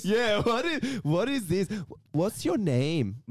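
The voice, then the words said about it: Put-on Persian accent in English. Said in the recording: “these Persians, Persian people, when they talk English, they got this weird accent.”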